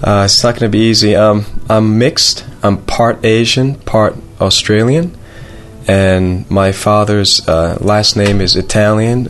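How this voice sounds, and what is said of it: Slightly American-sounding accent. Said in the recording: “your accent's a little bit American as well”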